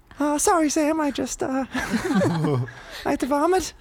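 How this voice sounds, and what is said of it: Impression of a friend. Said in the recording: “do a Joe Mackie impression”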